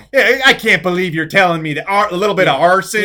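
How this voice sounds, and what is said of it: Put-on Midwest Wisconsin accent. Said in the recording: “a fucking Midwest Wisconsin accent”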